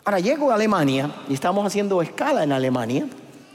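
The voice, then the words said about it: Cuban Spanish accent. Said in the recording (Spanish): “Mi acento nunca le cuadra a nadie ... esto es de Cuba”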